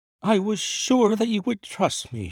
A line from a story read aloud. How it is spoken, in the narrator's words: she cried, with a great sigh of relief